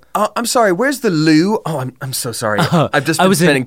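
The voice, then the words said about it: Put-on English accent. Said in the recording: “the two times that I've been in England, I start just like imitating the accent”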